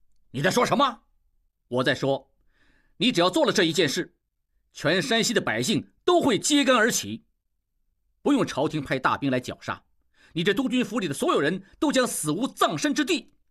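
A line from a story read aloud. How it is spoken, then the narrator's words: Furious outburst. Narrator (Chinese): 吴秉仁怒气勃然而起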